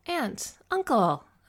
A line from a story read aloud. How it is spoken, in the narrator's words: exclaimed